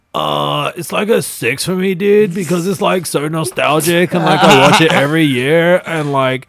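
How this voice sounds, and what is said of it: Imitates another person's voice. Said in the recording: “I'll do Jerry ... how spot on was my impression? ... Not very good.”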